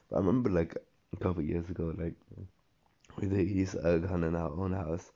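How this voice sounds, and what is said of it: Hoarse, weakened voice. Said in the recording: “I just kind of lost my voice.”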